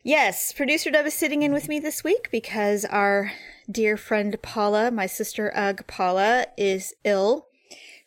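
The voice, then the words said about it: Tired-sounding voice. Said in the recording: “as you can hear in my voice, I'm tired.”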